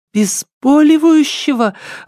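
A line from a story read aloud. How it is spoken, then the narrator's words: Exclamation. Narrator (Russian): воскликнула Лидия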